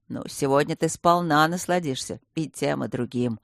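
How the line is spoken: Smirking. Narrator (Russian): хмыкнул

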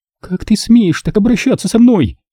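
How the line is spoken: Furious exclamation. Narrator (Russian): В ярости воскликнула девушка

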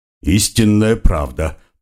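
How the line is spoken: Deep bass voice. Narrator (Russian): пробасил Карл

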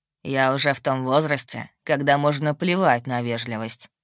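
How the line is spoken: Wry snort. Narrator (Russian): хмыкнул он

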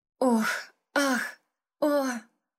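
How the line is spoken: Moaning. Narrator (Russian): стонала я каждый раз

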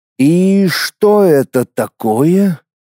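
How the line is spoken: Puzzled drawl. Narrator (Russian): недоуменно протянул я

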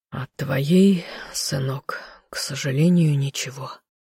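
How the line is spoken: Sighed. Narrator (Russian): вздохнул мужчина

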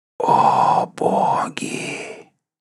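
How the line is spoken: Barely whispered. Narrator (Russian): только сумел прошептать Ренрохк

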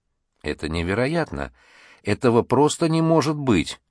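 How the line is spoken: Astonished undertone mutter. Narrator (Russian): бормотал в полголоса Чен

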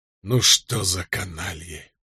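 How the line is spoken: Whispering. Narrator (Russian): прошептал Кэт

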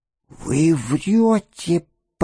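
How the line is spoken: Choked wheeze. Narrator (Russian): просипела она задушенным голосом

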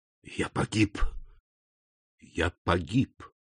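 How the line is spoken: Whisper. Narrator (Russian): прошептал он

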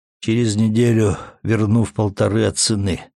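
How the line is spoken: Calm. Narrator (Russian): спокойно произнес Матвей

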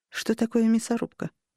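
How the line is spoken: Quiet question. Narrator (Russian): тихо спросила я у него

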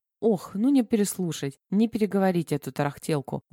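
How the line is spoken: Sorrowful sigh. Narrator (Russian): горестно вздохнула соседка

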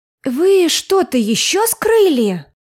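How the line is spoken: Sudden exclamation. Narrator (Russian): Тут же воскликнула моя сестренка

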